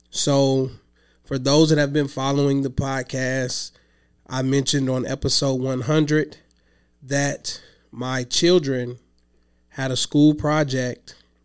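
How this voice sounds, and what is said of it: Hoarse, weakened voice from illness. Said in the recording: “I've been under the weather, so I've been sick. I lost my voice. I haven't had my voice all week. Slowly getting it back.”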